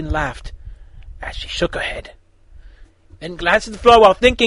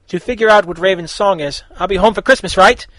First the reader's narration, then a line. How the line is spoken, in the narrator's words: Beast Boy literally yelled